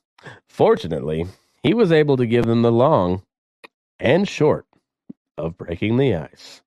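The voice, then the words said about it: Put-on newscaster voice. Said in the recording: “Let me get my newscaster voice on.”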